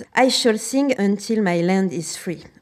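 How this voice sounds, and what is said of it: English spoken with a poor accent. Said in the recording (French): “Mauvais accent anglais.”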